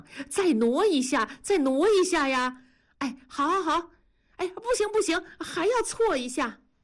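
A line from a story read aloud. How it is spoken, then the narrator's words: Shouting. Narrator (Chinese): 文丽就嚷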